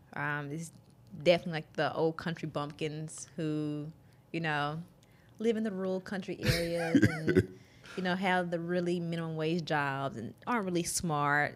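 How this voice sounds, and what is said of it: Southern American drawl. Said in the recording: “people say they love my accent ... a Southern drawl or accent”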